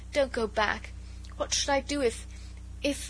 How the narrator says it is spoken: Her voice was choked in sobs

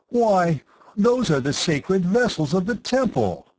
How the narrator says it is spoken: Temandrav cried, scandalized

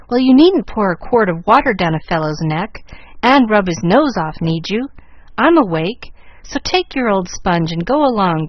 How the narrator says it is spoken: growled Jack, with one eye open and a mighty gape

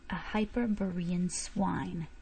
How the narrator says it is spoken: he hissed forcibly

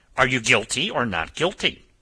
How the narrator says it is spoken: snapped this peppery gentleman

